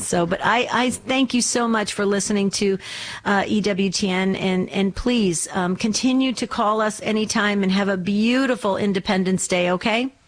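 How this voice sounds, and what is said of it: New Jersey back east accent. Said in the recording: “You probably picked up a little of my back east accent ... I was born and raised in New Jersey”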